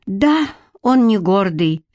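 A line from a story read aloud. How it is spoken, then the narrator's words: Sigh. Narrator (Russian): вздохнула Лидка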